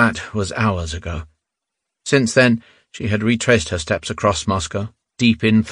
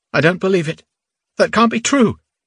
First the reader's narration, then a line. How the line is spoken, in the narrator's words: Nadia had cried out